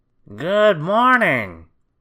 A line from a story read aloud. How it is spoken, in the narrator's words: bellowed the grocer